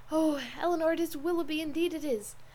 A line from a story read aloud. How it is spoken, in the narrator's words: In the ecstasy of her feelings at that instant, she could not help exclaiming